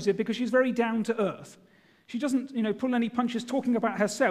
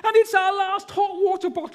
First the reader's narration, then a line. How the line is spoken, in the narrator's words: she exclaimed